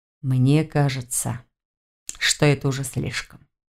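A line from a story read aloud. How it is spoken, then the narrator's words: Gentle remark. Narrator (Russian): мягко заметил Нев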